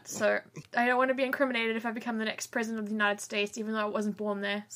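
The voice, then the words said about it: South African accent. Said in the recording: “my accent ... Why do you sound like you're from New Zealand? ... You're South African?”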